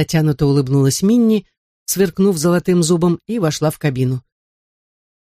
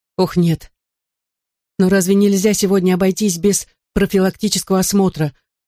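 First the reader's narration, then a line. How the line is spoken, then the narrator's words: Pleading question. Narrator (Russian): умоляющим тоном спросила Минни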